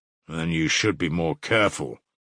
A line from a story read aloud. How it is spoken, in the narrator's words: Razumihin observed grimly